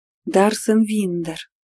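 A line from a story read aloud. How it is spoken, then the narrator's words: Solemn announcement. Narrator (Russian): торжественно представили свою находку силы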